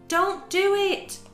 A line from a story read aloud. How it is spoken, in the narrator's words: cried the cricket